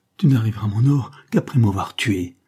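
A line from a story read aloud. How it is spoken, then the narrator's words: Exclaimed. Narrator (French): s'écria-t-elle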